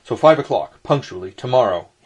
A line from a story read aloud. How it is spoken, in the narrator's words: he called out down the stair after me